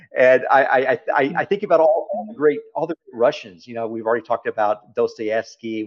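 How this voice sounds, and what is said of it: Texas accent. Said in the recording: “my Texas accent. It's not beautiful at all.”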